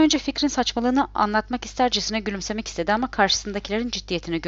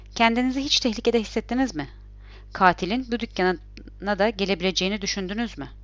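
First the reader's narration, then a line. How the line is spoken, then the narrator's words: Stammered. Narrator (Turkish): Orhan kekeledi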